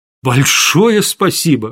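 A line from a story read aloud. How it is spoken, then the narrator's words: Exclaiming. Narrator (Russian): воскликнул я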